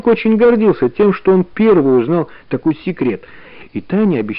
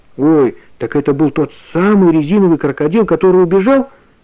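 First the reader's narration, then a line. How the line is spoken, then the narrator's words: Exclaiming. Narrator (Russian): воскликнула Таня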